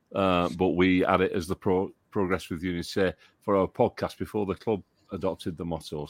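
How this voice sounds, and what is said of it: Northern English accent. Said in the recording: “That is a northern accent you've got there. That is a proper northern accent I can hear in that.”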